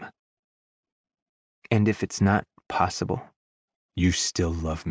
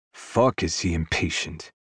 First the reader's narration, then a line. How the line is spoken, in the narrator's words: I mutter